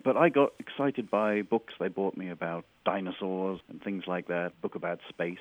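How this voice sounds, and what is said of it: English Birmingham accent. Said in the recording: “You can tell from my accent I grew up in England, but you can't tell is I grew up in Birmingham, England, which has a very distinctive accent of its own.”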